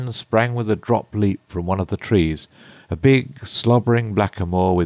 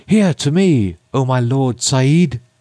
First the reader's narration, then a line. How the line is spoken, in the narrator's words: the queen, who was left alone, presently cried out in a loud voice